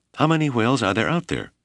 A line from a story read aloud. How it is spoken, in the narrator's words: Whipple asked